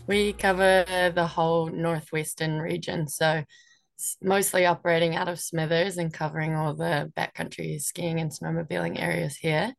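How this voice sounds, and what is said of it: New Zealand accent. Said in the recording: “from my accent, you can tell that I'm from New Zealand”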